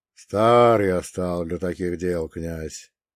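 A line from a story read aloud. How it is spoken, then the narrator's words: Quiet weighty voice. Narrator (Russian): произнес он своим тихим, но веским голосом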